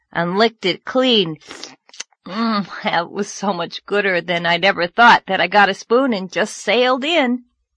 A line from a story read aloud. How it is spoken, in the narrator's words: Anne groaned